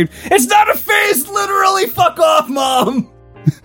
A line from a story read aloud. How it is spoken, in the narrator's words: Kylo screamed